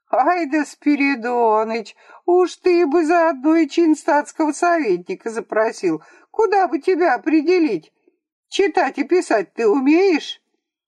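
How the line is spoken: Approving, laughing. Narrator (Russian): Путихов, хохотавший больше всех, одобрительно произнес

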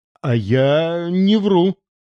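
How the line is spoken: Strained, forced out. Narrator (Russian): выдавил Антон Антонович

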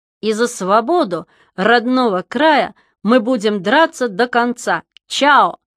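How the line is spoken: Loud singing. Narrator (Russian): завершал песню громко

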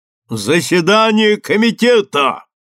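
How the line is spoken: Shouting. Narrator (Russian): Он закричал

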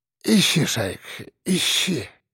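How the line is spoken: Barely breathed out. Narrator (Russian): Еле выдохнул Архип

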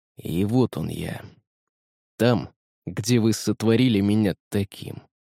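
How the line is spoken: Menacing. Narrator (Russian): грозно произнес он

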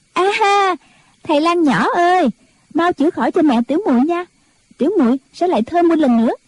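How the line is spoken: Joyful cheer, clapping. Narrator (Vietnamese): Bất Hối vỗ tay reo lên

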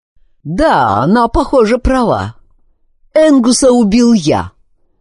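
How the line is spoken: Hysterical, painful laughter. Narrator (Russian): Стоун захохотал еще громче, так что вырывающийся у него из горла смех казался почти истерическим и вызывающим боль

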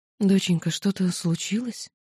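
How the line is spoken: Quiet question. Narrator (Russian): тихо спросила мама

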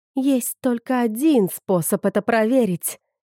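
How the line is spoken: Muttered through teeth. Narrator (Russian): процедила она

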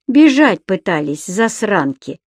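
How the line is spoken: Huge man's gruff mutter. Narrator (Russian): буркнул человек-гора

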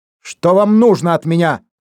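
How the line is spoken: Shout. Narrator (Russian): крикнул Дембо

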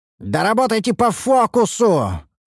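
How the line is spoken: Angry roar. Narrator (Russian): взревел я в сердцах

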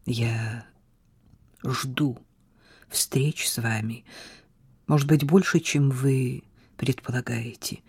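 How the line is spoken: Quiet. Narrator (Russian): тихо произнес он

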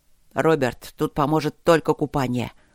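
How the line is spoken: Hiss. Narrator (Russian): прошипел Люк

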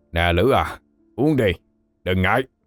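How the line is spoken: Gruff deep voice. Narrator (Vietnamese): Vài gã giọng ồm ồm

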